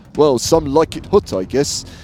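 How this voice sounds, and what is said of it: Poor celebrity impression, odd Australian-like accent. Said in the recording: “an even worse Cary Grant impersonation ... it's like a weird Australian accent”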